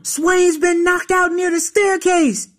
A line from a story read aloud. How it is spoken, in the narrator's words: some white kid dashed into the room yelling